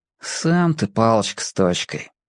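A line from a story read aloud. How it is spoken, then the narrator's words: Sigh. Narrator (Russian): вздохнул Шурик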